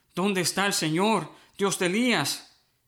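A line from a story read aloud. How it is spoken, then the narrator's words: Exclaiming. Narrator (Spanish): exclamó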